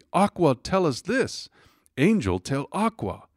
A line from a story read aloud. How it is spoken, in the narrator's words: the people they all cried out excitedly